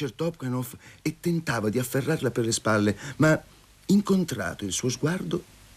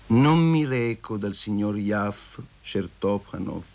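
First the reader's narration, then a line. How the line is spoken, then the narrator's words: Slow, calm reply. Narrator (Italian): rispose Masha lentamente e tranquillamente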